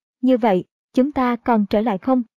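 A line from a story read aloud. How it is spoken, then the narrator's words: Slightly trembling question. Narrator (Vietnamese): Diệp Linh hơi run run, sau đó hỏi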